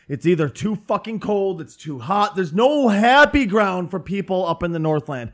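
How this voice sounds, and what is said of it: Northern Minnesota accent. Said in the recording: “our accents are slightly different. I'm from northern Minnesota”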